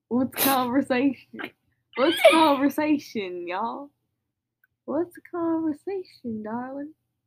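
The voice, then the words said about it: Put-on Southern US accent. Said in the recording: “Why'd you go southern? ... sometimes I slip into a Southern accent ... it's a good accent ... that's a terrible accent”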